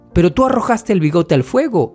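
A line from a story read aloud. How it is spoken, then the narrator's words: Tearful exclamation. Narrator (Spanish): exclamó Jung-ho, llorando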